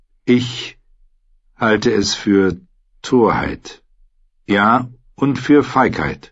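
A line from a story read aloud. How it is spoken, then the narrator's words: Slow answer. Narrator (German): antwortete er langsam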